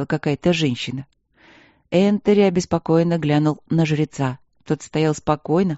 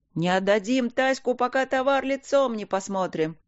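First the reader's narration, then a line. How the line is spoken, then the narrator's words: Crowd shouting. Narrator (Russian): кричали из толпы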